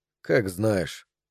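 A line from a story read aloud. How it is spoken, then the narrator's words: Tired. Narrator (Russian): сказал он устало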